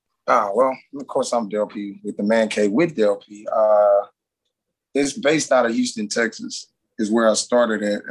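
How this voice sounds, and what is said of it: Thick regional accent. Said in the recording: “I like your accent. It's very thick.”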